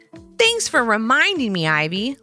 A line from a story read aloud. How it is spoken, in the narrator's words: Levi snapped back